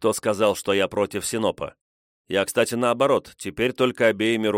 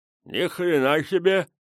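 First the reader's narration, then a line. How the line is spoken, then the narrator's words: Mumbling with full mouth. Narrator (Russian): прошамкал Петрович набитым вяленым мясом ртом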